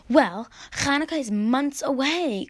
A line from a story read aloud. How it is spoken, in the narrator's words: cried Mordechai